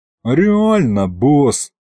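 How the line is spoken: Sigh. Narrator (Russian): вздохнул Аристофан

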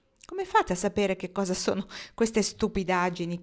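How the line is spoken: Laughing question. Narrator (Italian): chiese Dwight ridendo

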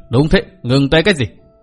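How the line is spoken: Sneering. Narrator (Vietnamese): Mạc Nam Lão Ma cười khẩy nói

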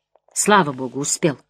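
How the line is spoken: Whispered. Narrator (Russian): шепнул он мне

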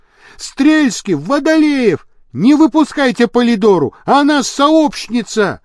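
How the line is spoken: Shouted. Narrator (Russian): закричал он

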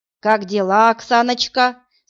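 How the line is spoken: Plain. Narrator (Russian): спросил Избудский

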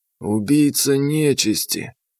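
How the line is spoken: Hoarse. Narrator (Russian): хрипло сказал он

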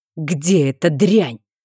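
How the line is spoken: Through gritted teeth. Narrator (Russian): процедил герцог

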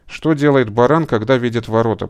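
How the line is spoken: Muttering. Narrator (Russian): пробормотал он

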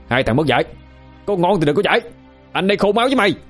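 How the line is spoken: Shout. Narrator (Vietnamese): An quát lên

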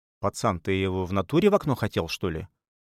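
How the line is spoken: Very calm question. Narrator (Russian): спросил кто-то очень спокойным голосом

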